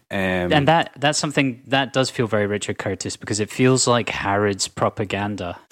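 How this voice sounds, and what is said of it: Posh British accent. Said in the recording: “my posh cunt accent”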